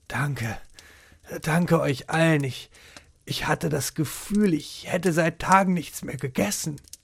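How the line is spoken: Calmer, breathless murmur. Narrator (German): Erst als sein Atem wieder ruhiger wurde, murmelte

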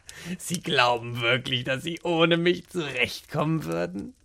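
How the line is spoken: Mocking thought. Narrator (German): dachte er spöttisch

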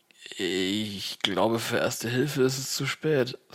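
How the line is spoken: Pained voice. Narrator (German): sage ich mit gequälter Stimme

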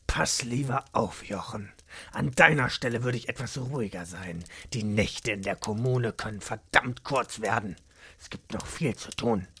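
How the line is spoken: Sharp quiet hiss. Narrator (German): Er zischte leise, aber mit deutlicher Schärfe

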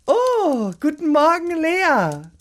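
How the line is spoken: Carefree call. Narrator (German): rief Gesine unbeschwert

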